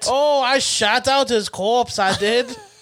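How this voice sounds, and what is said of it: Put-on unidentifiable accent. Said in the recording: “I don't know what accent this is anymore.”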